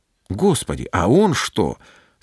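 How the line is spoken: Plain. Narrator (Russian): спросил Петр

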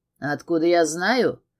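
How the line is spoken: Snort. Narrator (Russian): хмыкнул он

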